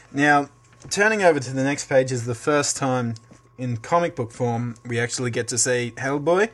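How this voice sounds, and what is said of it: Usual voice. Nothing is said of it.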